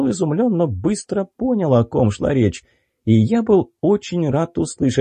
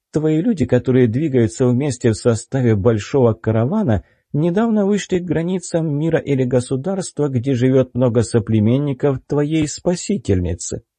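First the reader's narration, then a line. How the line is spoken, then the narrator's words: Calm young woman. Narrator (Russian): спокойно проговорила девушка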